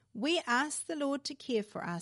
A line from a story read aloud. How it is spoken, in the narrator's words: said Mother